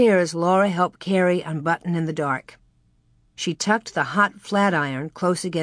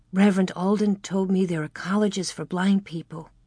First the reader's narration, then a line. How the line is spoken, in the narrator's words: Mary whispered